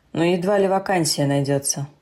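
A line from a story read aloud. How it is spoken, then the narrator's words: Dry, elderly man. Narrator (Russian): Сухо заметил пожилой господин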